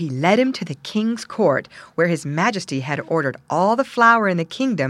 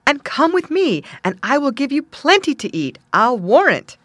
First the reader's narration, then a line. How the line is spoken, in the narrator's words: he exclaimed